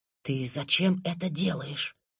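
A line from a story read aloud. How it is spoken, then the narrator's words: Hissed. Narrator (Russian): прошипел я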